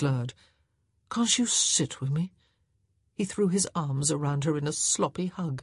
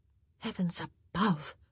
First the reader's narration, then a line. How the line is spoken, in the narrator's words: she said under her breath